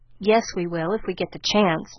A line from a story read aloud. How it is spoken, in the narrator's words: muttered Laurie rebelliously